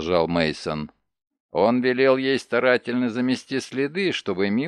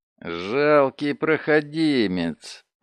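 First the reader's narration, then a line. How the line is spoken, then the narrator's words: Groaning. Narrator (Russian): простонал Барслер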